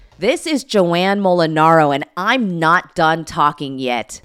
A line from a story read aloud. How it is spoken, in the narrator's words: yelled straight into my phone